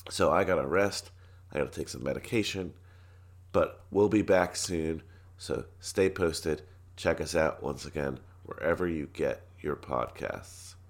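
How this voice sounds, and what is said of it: Hoarse, fading voice. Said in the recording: “As you can tell, I'm losing my voice”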